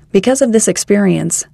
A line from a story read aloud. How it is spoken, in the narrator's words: says Brother McIntosh